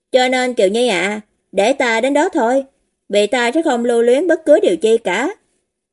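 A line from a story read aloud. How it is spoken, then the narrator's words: Smiling. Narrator (Vietnamese): Hồ Duyệt lại mỉm cười bảo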